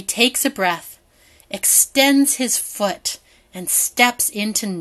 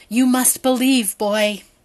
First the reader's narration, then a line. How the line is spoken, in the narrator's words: father gasps